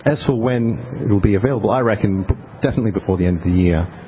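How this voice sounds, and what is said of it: Australian accent. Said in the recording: “There's that Australian accent coming out with the I reckon.”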